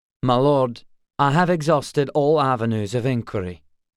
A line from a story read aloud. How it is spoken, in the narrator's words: Auric replied evenly